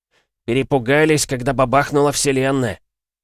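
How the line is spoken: Snorting. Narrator (Russian): фыркнул Валера

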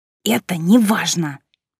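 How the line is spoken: Through gritted teeth. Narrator (Russian): сквозь зубы процедила она

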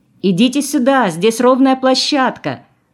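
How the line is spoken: Woman shouting. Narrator (Russian): крикнула она остальным

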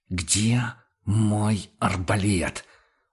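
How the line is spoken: Hissing on the edge. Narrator (Russian): уже на пределе шипения повторил охотник

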